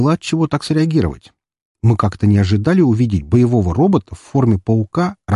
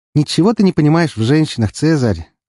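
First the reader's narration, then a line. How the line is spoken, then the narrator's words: Patronizing tone. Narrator (Russian): ответила фурсианка покровительственным тоном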